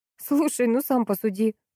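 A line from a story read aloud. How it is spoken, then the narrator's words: After laughing. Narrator (Russian): сказала я, отсмеявшись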